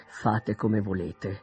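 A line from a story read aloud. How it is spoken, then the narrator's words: Cold reply. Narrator (Italian): rispose freddamente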